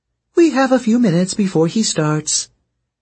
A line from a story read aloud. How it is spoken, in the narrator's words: Melly said cheerfully